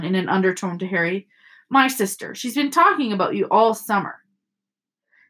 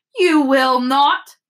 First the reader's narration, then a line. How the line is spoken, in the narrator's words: snapped Mrs